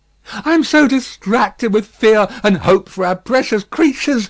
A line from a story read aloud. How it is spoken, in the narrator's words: said Miss Pross, wildly crying